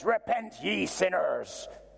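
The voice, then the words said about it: Put-on Northern Irish accent, preacher-like. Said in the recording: “I don't know why I use a Northern Irish accent.”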